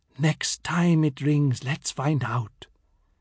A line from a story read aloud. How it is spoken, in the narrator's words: The brass monkey whispered